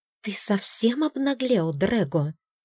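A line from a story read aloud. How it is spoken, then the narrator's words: Hissed. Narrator (Russian): зашипела Ирис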